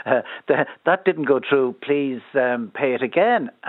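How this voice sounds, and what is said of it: Put-on accent. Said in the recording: “I'm putting on the accent.”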